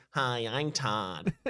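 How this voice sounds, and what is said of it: Nasal put-on introduction voice. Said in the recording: “in a nasal voice”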